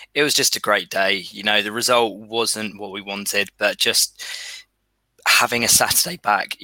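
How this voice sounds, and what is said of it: Strained, worn-out voice. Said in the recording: “As you could probably tell, my voice is still suffering a little bit from yesterday.”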